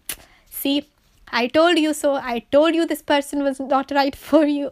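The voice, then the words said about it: Badly done put-on Asian parent accent. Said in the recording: “my accent is so bad”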